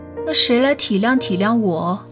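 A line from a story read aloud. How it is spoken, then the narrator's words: Wry bitter smile. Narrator (Chinese): 他苦笑着说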